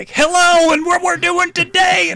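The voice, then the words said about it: Overly excited game show host voice. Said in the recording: “who is this overly excited game show host ... way too happy”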